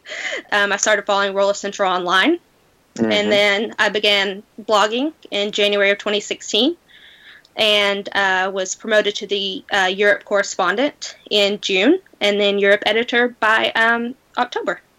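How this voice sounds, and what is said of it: American southern accent. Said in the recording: “you do sound from across the Atlantic ... from the state of Tennessee in the United States ... my southern accent”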